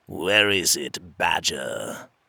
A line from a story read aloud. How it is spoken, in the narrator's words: one of the dark fairies growled